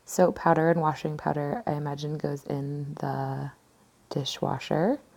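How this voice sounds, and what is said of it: British accent. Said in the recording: “my offensive British accent”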